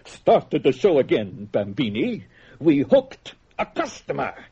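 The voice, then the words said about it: Phony Italian accent. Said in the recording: “he said in this phony Italian accent”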